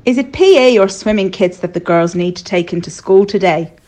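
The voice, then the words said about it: Rubbish imitation of an Irish accent. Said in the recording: “a mum at school who is Irish ... Sorry for the rubbish accent, but hey, it is marginally better than Louisa's.”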